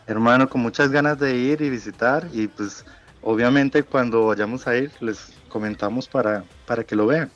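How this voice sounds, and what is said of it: Noticeable regional accent. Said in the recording (Spanish): “Todavía tiene acento, ¿no? ... Todavía le nota el acento.”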